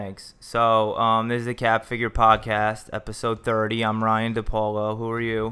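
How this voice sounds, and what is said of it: Usual voice. Nothing is said of it.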